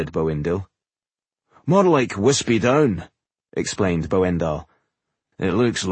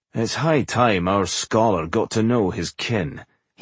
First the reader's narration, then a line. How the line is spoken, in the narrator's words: he said dryly